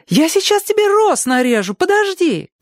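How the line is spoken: Shouting. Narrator (Russian): крикнула она

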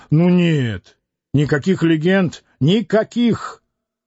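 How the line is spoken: Loud and indignant. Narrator (Russian): Рыжеусый громко и возмущенно сказал

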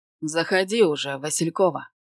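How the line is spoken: Sharp scolding shout. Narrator (Russian): прикрикнул на меня профессор

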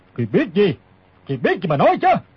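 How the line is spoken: Old man barking question. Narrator (Vietnamese): Lão quát hỏi

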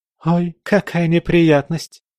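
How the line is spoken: Feigned exclamation. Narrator (Russian): воскликнула Анастасия, притворно

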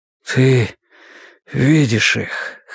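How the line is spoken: Hoarse. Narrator (Russian): хрипло сказал

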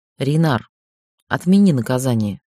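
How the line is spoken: Quiet request. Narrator (Russian): попросила тихо

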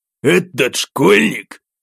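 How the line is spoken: Contemptuous forced-out words. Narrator (Russian): пренебрежительно выдавил он

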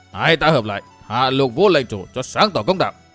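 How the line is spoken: Harsh, stern old man. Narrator (Vietnamese): Lão gằn giọng

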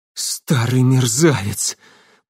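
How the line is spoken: Shuddering hoarse wheeze. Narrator (Russian): прохрипел он, содрогаясь всем телом

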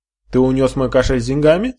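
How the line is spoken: Angry question. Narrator (Russian): спросил он сердито

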